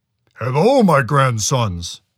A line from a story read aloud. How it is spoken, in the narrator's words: the Chenoo rumbled